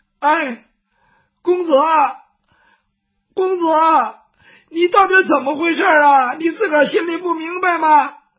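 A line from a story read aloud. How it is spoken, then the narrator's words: Crying child. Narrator (Chinese): 雨墨这个时候哭了，他毕竟是个孩子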